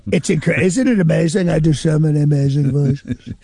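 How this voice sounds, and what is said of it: Donald Trump impression. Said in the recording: “Nobody impersonates better than you do, John ... I met Trump in 1990, and as soon as I met him, I was like, ooh. That's an interesting voice ... You're the best impersonator ever in the history of impersonation”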